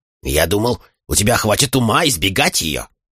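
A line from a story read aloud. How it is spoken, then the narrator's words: Grumbling. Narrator (Russian): заворчал на меня Чейт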